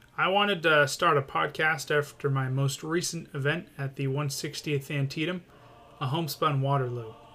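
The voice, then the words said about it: Maine accent. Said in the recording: “hence the Mainer accent.”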